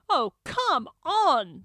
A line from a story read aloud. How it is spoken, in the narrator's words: the Doctor exclaims